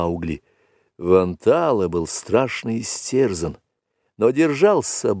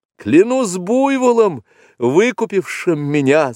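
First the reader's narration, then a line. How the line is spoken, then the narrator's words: Gloating laughing shout. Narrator (Russian): злорадно смеясь, крикнул Маугли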